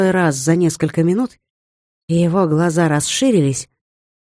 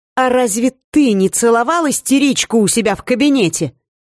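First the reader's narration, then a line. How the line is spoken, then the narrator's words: Indignant question. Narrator (Russian): также возмущенно спросила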